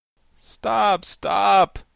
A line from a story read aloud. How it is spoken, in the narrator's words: cried the pumpkin head